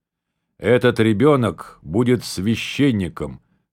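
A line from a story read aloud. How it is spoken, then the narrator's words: Solemn announcement. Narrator (Russian): торжественно объявила она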